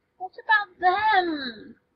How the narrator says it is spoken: whines

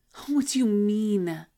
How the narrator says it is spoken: She wheezes

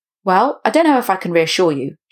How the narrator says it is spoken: she eventually answered

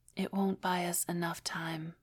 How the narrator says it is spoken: Junhyun Lee heard herself whisper

